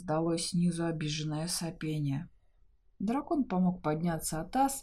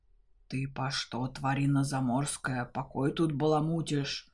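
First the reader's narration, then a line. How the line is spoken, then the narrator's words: Fierce menacing question. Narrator (Russian): Грозно осведомился свирепый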